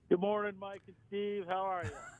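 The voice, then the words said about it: Polished radio announcer voice. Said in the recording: “He's got his radio voice on today.”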